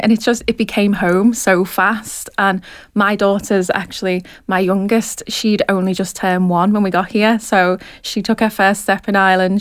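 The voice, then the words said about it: Liverpool accent. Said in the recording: “I'm sure you can tell from my accent that I'm actually from Liverpool”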